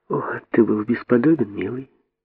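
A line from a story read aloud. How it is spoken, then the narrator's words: Queen, plain. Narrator (Russian): сказала королева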